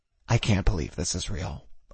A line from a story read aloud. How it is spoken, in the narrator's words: I whispered feverishly